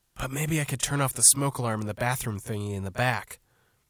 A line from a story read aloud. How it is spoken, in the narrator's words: she said, then whispered